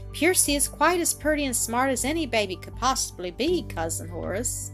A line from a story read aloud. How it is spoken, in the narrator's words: Annis quietly remarked